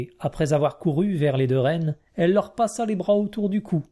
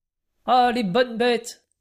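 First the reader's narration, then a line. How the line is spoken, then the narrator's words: Exclaimed. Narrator (French): s'écria Napoléon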